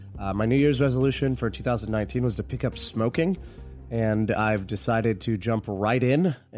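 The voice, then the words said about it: Hoarse, strained sick voice. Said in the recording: “I know I sound differently ... I got sick the first week of uh, of the new year. And as a result of being sick, my voice is shot. So I'm going to sound a little bit different this episode”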